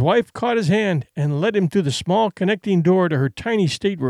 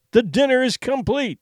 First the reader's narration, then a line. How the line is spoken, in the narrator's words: he cried